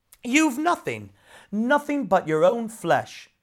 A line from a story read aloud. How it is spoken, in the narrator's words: exclaimed his exasperated brother